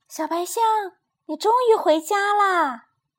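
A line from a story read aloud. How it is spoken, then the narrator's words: Surprised cry. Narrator (Chinese): 露西惊叫着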